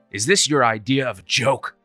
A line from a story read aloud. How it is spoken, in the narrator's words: snapped